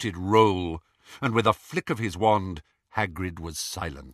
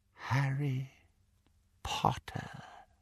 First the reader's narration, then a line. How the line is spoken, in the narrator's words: he said, very softly